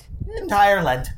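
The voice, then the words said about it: Bad put-on Irish accent. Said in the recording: “That's the worst accent I've ever done.”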